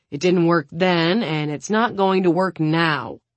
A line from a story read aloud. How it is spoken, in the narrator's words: she snaps at Suna